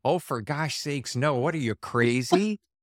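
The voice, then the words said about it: Put-on Minnesota accent. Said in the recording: “The Minneapolis accent”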